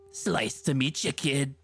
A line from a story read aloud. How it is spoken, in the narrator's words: Pizza Freak sneered